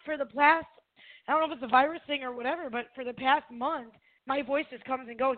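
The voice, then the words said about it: Hoarse, weak voice. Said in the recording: “I lost my voice, so I'll try to do the best I can”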